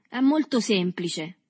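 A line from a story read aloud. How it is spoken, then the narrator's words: Clear, loud voice. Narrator (Italian): egli disse con voce chiara e forte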